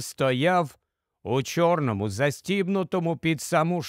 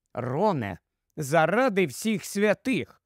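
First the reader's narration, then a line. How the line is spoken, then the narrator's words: Stern reproach, secretly pleased. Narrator (Ukrainian): суворо дорікнула йому Герміона, хоча було видно, що сказане їй подобається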